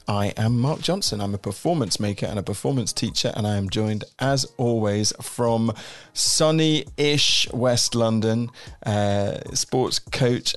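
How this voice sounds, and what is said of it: Congested, snotty-sounding voice. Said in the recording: “you can probably hear in my voice, I'm a little bit snotty”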